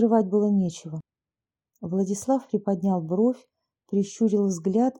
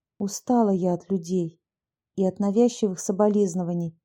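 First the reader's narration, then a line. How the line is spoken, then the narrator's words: Calm voice. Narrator (Russian): спокойным голосом ответила Анна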